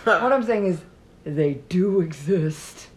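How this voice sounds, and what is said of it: Santa Claus character voice impression. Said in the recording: “That was my impression of the Santa Claus in the M&M commercial when he sees the M&M people.”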